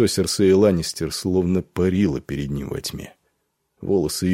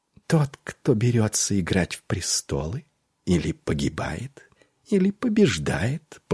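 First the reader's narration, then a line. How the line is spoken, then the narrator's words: Whispered. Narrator (Russian): прошептала она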